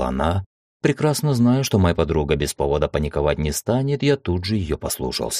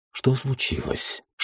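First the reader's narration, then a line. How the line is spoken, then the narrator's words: Whispered question. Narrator (Russian): шепотом спросил я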